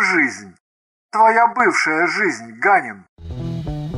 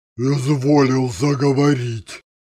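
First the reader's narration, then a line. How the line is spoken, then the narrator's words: Astonished booming male voice. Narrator (Russian): Прогудел изумленно он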